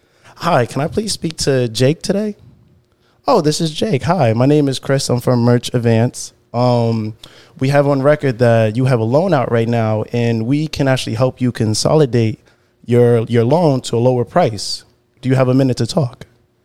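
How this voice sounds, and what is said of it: Put-on stereotypical white voice. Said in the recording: “I would just go into my white voice, I guess ... Do the typical white voice ... I do not talk like that”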